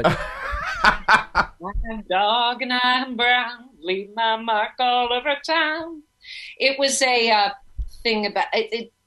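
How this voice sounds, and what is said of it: Imitates another person's singing voice. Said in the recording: “my Helen Reddy impression”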